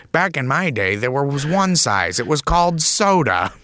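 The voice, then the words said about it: Imitates another person's voice. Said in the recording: “really good Andy Rooney impression ... We're both kind of gifted mimics”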